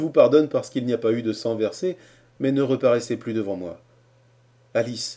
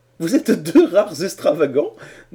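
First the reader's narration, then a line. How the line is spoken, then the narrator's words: Laughing. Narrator (French): dit-elle en riant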